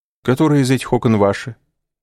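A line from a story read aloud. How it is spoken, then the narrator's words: Forced casual question. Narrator (Russian): спросил он насколько мог естественным тоном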